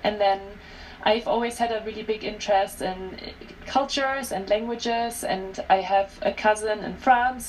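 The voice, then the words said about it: German accent. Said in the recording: “I have an accent because people always listen to me and they wonder where I'm from. I'm originally from Germany.”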